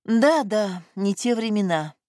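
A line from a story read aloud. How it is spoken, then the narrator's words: Sighing. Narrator (Russian): вздохнула Элеонора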